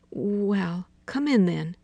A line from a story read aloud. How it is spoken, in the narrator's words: she said hesitantly